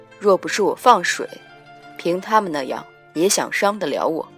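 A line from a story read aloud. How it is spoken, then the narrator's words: Flat, indifferent. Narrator (Chinese): 他淡淡道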